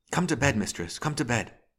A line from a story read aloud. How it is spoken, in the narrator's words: She cried out in a loud whisper